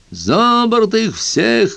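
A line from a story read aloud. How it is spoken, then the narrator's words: Captain shouting. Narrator (Russian): кричал капитан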